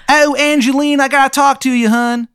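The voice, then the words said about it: Bad put-on Maryland accent. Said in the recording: “It's the worst Maryland accent you've ever heard”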